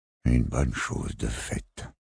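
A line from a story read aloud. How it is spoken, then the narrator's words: Weary murmur. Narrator (French): murmura-t-il d'un ton las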